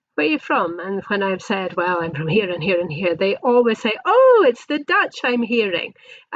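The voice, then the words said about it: Scottish accent. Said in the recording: “I just hear your accent is Scottish”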